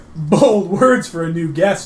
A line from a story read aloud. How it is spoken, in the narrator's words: laughed Gorm